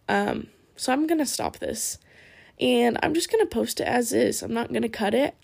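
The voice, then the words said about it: Tired, raspy voice. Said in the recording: “I'm tired. My eyes are closing literally as we speak, and my voice is getting raspier.”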